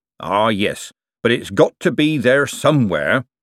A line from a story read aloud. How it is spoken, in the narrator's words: said Mr